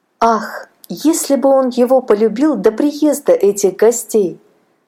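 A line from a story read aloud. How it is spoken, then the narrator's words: Sighing. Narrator (Russian): вздохнула Аннушка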